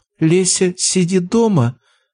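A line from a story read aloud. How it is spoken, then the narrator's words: Mocking mimicry broken by sob. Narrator (Russian): попыталась передразнить, но не сдержала очередного всхлипа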